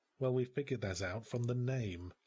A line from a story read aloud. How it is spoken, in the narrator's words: I muttered